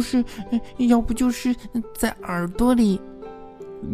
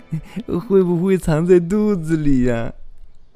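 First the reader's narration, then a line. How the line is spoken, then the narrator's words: Giggling. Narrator (Chinese): 凯伊咯咯地笑着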